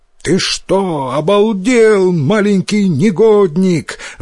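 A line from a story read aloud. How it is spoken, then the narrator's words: Yelling. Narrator (Russian): заорал он на Йотаро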